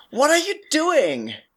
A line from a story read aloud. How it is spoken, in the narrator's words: he shouts towards the hunters